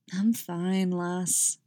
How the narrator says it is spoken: drawled George

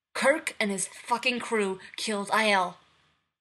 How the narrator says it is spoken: Nero barks

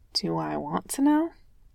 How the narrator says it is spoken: Jasper asked quietly

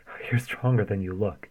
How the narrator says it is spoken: Daniil gasped, though he hardly sounded displeased with this

